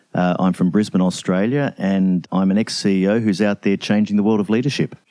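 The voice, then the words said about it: Australian English accent. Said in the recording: “Love the accent. It's just such a joy to hear you speak. It's so just like music in my ears ... I'm not actually Crocodile Dundee, but I am Australian”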